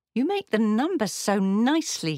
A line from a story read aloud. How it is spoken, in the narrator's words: he exclaimed